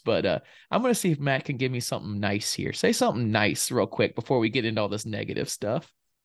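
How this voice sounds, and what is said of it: Subdued, sick-sounding voice. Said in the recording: “you might hear my tone of voice. I'm not like crying or anything... I'm sick... the tone or the more subdued”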